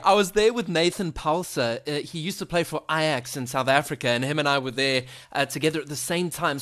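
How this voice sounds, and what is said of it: South African accent, melodic. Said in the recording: “listening to my South African accent, does it sound bland? ... No, I love your accent ... you have like a nice melody when you talk”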